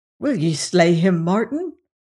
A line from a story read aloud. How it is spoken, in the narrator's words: cried he